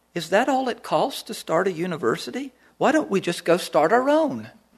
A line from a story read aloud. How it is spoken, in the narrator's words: the lady said very quietly